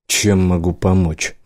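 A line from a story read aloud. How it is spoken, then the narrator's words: Gruff grumble. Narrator (Russian): буркнул он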